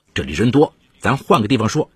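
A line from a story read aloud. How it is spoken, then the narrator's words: Cold. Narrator (Chinese): 韩凤慧冷冷地说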